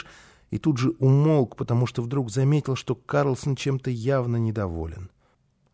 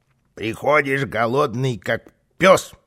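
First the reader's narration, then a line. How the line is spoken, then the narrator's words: Grumbling. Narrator (Russian): ворчал Карлсон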